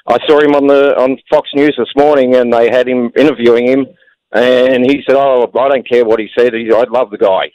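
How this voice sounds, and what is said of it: Australian accent. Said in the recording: “I'm Australian. ... I hear an Australian accent.”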